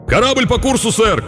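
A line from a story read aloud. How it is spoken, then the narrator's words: Shouted from masthead. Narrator (Russian): крикнул вперед смотрящий из стопа мачты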